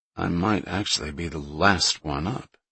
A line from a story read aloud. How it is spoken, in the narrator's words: he mumbled